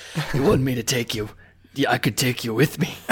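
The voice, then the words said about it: Gruff imitated character voice. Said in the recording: “I could try the Hound ... That's pretty Liam Neeson.”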